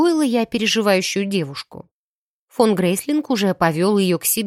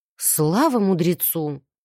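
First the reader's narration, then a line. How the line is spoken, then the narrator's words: Relieved exhale. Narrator (Russian): облегченно выдохнула Виола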